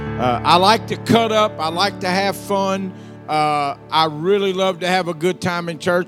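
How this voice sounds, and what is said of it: Southern US Louisiana accent. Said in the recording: “I'm from the South. They say I have an accent. ... So I'm from Louisiana”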